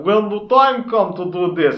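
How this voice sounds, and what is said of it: Heavy put-on Russian accent. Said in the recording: “Wynn had a heavy Russian accent.”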